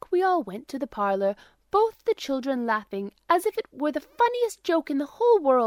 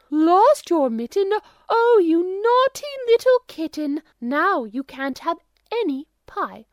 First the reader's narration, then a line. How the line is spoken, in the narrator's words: smoothing the smile almost away, made believe to be the kitten's mother, and cried out